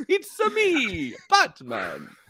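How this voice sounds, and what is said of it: Bad Mario-style Italian accent. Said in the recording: “the bad accent ... the Mario accent”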